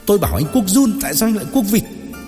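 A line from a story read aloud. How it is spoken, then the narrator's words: Shouting. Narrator (Vietnamese): Dậu hét lên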